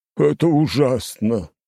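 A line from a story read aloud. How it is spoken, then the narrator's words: Groaning. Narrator (Russian): простонал Стрельцов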